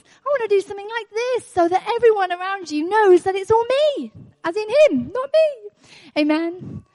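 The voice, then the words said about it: High-pitched excited voice. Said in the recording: “my voice gets high, I need a bit of feedback because I'm getting excited”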